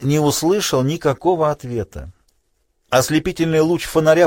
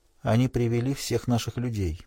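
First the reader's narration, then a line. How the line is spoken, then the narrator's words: Barely audible. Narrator (Russian): едва слышно произнесла Хелен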